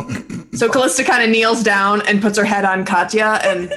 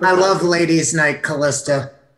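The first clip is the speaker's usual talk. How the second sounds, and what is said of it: Drunk-sounding character voice with accent. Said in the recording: “It's really hard to keep the accent with a drunk voice”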